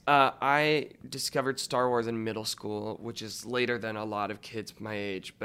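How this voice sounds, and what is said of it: Slightly raspy voice. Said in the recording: “you can hear my voice is a little raspy.”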